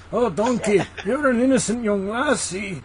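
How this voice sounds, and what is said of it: Shrek-style put-on Scottish accent. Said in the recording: “I only do Shrek ... I'm doing Scots”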